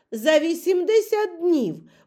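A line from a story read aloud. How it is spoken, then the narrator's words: Exclamation. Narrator (Ukrainian): вигукнув Ендрю Стюарт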